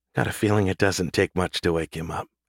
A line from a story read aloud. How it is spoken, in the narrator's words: Collie whispered